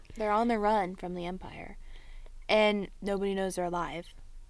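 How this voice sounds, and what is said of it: Dramatic announcer-style narration voice. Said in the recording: “in an announcer voice”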